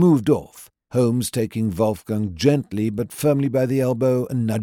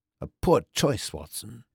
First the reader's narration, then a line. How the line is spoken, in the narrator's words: muttered to me